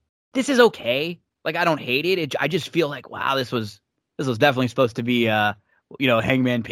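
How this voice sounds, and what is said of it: Usual voice. Nothing is said of it.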